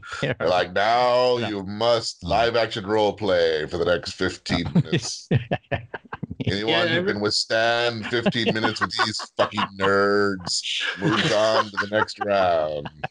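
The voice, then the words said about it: Imitates another person's voice. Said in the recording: “I don't do a very good Joe Rogan impersonation”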